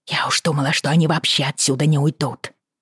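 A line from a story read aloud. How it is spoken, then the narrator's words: Whisper. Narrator (Russian): прошептала Бриана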